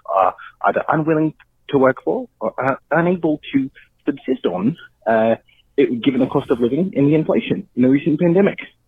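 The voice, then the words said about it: New Zealand or Australian accent. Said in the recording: “he has an accent ... I assume it's a New Zealand accent ... he could also be Australian”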